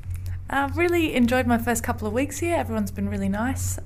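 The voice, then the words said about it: Australian accent. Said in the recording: “you might be able to hear from the accent. I'm from Australia originally”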